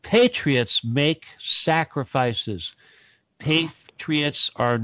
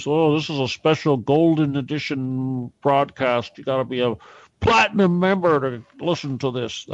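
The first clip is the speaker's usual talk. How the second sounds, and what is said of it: Imitates another person's voice. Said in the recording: “That was my Corsi imitation”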